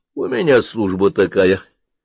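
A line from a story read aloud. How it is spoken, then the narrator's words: Mumbled. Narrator (Russian): с места пробурчал Заремба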